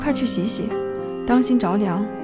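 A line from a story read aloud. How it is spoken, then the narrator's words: Soft, gentle voice. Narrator (Chinese): 柔声说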